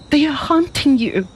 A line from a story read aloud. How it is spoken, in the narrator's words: she cried